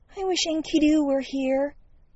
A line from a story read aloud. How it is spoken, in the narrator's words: a whispered